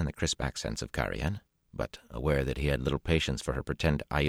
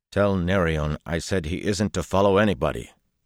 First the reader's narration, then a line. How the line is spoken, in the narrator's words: Perrin told her sharply